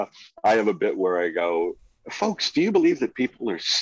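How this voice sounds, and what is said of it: Usual voice. Nothing is said of it.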